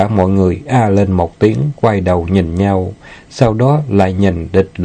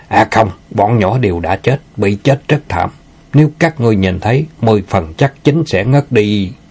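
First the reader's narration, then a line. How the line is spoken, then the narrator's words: Anguished, forceful anger. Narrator (Vietnamese): Địch Lão Nhị hiện lên vẻ thống khổ, dùng sức giận dữ nói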